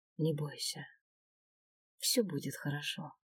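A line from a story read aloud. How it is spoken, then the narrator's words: Quiet promise. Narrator (Russian): тихо пообещал Свен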